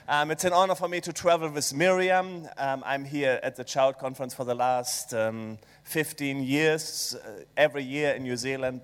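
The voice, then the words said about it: German accent. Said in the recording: “maybe it's the German accent”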